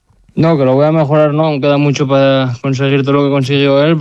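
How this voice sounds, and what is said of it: Asturian Spanish accent. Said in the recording (Spanish): “Me gusta mucho tu acento, asturiano”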